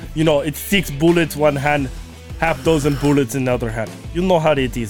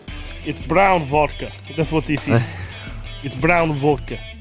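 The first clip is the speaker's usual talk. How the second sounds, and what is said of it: Put-on Russian accent. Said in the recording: “Speaking Russian. Decent accent. Not too good. But not bad.”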